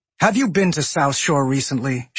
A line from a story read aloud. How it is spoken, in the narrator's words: She snapped rhetorically